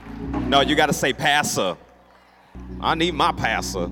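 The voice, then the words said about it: Put-on country accent. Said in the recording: “I'm not country at all. I just like sounding country from time to time.”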